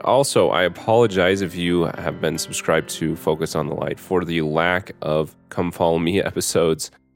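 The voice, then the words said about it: Sick, strained voice. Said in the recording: “apologize for my voice. My wife and I currently have COVID.”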